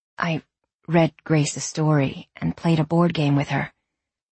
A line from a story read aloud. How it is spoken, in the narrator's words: Jude said quietly